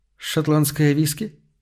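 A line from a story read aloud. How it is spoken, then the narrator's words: Absent-minded mumble. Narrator (Russian): рассеянно пробормотала она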